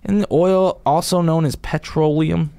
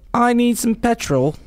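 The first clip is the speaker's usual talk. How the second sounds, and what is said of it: Put-on British accent. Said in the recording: “Like if you go to the UK, they'd be like ... Is that a good voice? Is that a good accent? ... it was a very good accent. ... Still not there.”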